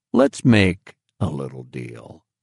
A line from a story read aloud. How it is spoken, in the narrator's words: Brockett said in a seductive undertone